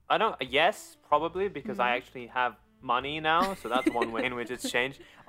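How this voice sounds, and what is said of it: English accent. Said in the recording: “Did they have Scholastic Book Fairs in England? ... you can expose where I'm from. The accent kind of does that already.”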